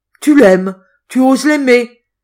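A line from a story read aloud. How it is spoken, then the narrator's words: Furious exclamation. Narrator (French): s'écria le maître d'hôtel avec une rage inexprimable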